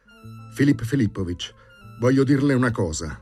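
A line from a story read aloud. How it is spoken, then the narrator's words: Passionate exclamation. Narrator (Italian): esclamò con passione Bormental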